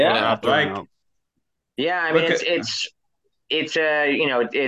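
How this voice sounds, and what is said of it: Usual voice. Nothing is said of it.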